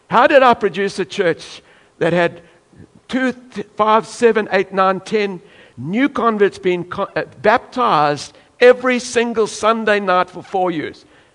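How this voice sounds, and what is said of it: South African accent. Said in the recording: “He's got a strange accent ... a South African, with this accent”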